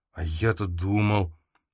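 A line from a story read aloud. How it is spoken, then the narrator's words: Dejected voice. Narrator (Russian): упавшим голосом произнес Тимон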